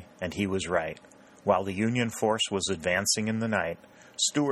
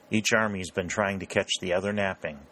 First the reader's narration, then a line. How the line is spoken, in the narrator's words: said Dalton